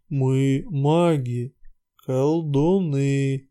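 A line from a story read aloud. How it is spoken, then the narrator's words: Quiet mutter. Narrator (Russian): негромко пробормотал Светозар Любимович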